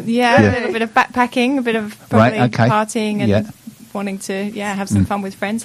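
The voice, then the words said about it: English accent, little rising intonation. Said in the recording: “you kept your English accent, which is amazing. You're not going up at the end too much.”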